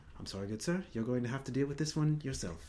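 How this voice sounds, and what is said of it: Put-on proper British accent. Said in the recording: “It was British. ... Oh, but it was proper British.”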